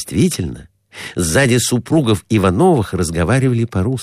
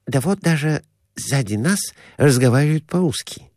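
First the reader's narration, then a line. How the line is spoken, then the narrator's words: Whisper. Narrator (Russian): шепнул доктор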